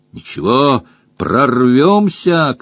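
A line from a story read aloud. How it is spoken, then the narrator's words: Shouting. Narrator (Russian): крикнул Джон Том друзьям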